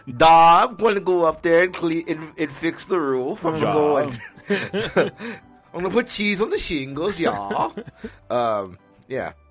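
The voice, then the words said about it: Put-on mock Scandinavian accent. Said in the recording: “I've never heard that accent from an actual Scandinavian person”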